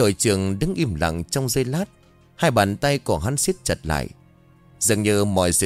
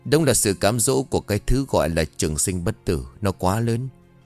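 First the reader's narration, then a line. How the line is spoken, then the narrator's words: Sighing. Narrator (Vietnamese): lão Bân thở dài rồi nói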